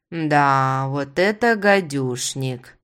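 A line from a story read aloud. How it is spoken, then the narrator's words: Drawled. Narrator (Russian): протянула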